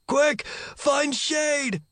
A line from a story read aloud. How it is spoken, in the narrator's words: Follower shouted